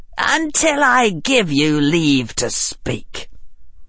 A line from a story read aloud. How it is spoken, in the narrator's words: Harry said in a chill voice